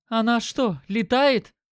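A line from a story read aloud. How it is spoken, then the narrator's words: Exclaimed. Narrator (Russian): воскликнула Катя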